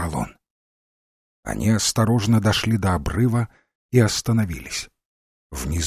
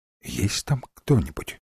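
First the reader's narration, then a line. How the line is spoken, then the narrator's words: Quiet question. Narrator (Russian): тихо спросил Димбл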